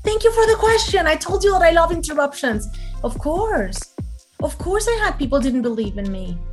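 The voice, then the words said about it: Non-native English accent. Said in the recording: “I'm not saying that my English is fantastic... I invent a lot of words and have this accent.”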